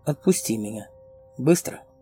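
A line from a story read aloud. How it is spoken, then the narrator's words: Cold girl's voice. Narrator (Russian): девочка холодно произнесла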